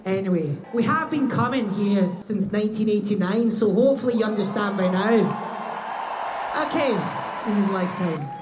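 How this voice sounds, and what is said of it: Scottish accent. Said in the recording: “I hope my Scottish accent is okay for you.”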